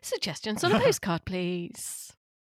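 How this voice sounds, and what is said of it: BBC local radio presenter voice. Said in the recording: “That's my best BBC local radio voice.”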